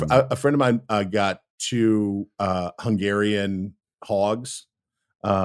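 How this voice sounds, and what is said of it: Usual voice. Nothing is said of it.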